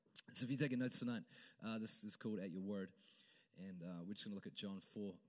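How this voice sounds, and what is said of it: Strained, fading voice. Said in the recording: “my throat is so... I'm fine, but I'm just losing my voice.”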